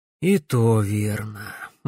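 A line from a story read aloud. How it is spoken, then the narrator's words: Sighing. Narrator (Russian): вздохнул он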